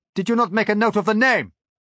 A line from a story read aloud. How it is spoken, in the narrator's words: I shouted impatiently